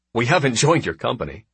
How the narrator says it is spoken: he blurts

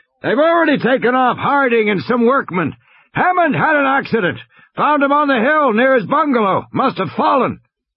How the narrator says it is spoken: Muldoon shouted

